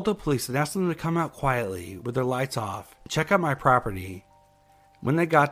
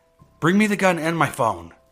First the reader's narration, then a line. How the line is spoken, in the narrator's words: I yelled to my daughter, very loudly so whoever was out there could hear me